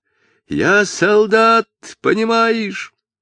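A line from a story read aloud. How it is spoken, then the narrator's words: Desperate furious shout. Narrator (Russian): отчаянно закричал медник, ударив себя кулаком в грудь, как в доску, и яростно продолжал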